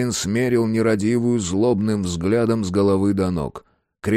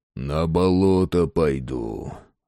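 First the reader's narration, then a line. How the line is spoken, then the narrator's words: Growl under breath. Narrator (Russian): рыкнул себе под нос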